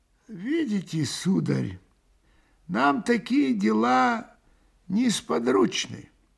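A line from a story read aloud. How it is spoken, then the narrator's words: Slow, old man. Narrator (Russian): медленно промолвил старик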